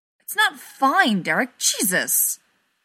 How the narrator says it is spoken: Stiles snaps

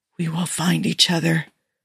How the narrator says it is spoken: Jim whispered

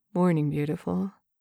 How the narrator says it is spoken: he murmurs

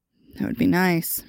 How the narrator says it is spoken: Merlin slurred

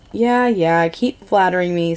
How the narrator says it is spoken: Skylar sighs, trying not to smile

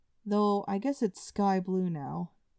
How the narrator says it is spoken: in a rather disgruntled tone, he added

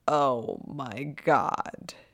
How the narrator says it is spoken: moans

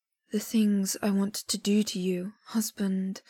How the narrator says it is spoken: Luo Binghe murmurs

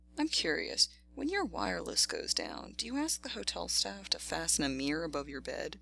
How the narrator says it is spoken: House chuckled

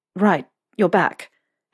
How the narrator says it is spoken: Harry stammered

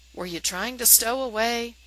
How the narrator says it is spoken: Sam asks kindly

